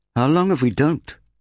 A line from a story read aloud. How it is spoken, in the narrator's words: snapped Rek